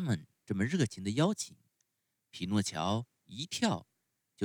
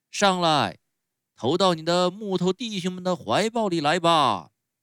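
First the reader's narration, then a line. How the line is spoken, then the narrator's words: Clown shouting. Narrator (Chinese): 花衣小丑叫道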